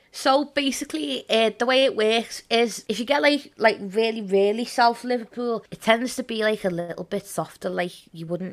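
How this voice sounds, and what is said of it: Distinct Scouse Liverpool accent. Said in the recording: “you have a pretty distinct accent ... more audibly Scouse”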